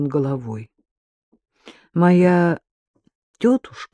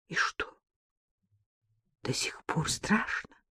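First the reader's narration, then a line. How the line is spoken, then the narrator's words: Quiet question. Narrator (Russian): негромко спросила Вероника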